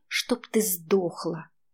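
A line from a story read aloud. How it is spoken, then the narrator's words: Hiss. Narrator (Russian): Лада прошипела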